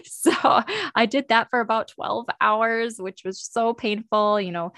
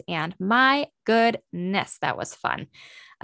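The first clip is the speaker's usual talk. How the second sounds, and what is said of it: Sarcastic delivery. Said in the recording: “saying that sarcastically.”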